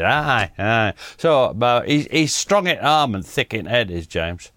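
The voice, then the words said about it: Put-on Yorkshire accent. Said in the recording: “I feel particularly Yorkshire today ... So I'm going for accent.”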